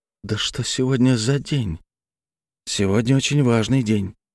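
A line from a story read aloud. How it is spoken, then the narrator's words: Whispered reply. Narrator (Russian): таким же шепотом ответил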